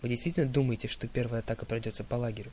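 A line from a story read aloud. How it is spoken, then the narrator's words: Plain question. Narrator (Russian): спросил я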